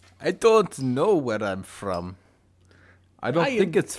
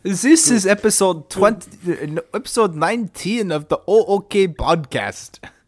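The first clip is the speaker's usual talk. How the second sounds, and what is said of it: Put-on foreign accent, fairly decent. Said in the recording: “I don't know what the accent that was. That was pretty okay.”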